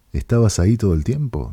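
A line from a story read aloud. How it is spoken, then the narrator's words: Plain. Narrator (Spanish): dijo ella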